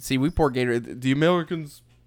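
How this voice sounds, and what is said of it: Put-on French accent. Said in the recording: “I don't know why I'm doing the French accent”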